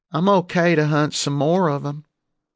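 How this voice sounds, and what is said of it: Thick Southern accent. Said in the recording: “she said in a thick southern accent.”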